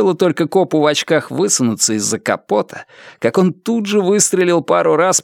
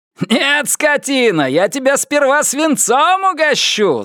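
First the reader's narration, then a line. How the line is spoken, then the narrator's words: Spirited shout. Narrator (Russian): задорно крикнул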